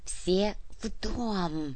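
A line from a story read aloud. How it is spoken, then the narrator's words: Whisper into radio. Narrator (Russian): прошептала в рацию Анна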